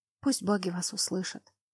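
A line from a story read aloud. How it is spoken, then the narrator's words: Whisper. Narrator (Russian): прошептала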